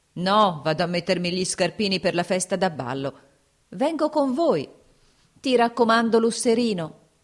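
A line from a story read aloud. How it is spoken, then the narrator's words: Shouted. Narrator (Italian): gridò la cantiniera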